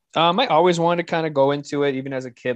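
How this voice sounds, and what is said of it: Strong accent. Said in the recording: “The accent threw me off. I didn't realize you had such a strong accent. ... It's a regal accent.”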